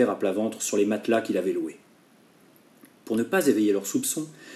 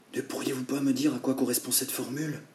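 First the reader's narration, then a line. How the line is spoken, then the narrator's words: Whispered. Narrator (French): chuchota-t-il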